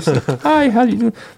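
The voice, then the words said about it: High little boy voice. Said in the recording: “in my little boy voice.”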